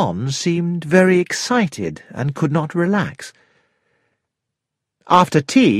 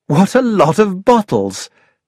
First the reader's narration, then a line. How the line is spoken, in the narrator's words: I exclaimed